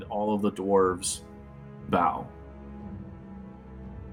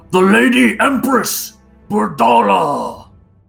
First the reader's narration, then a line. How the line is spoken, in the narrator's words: calls out loudly and clearly to all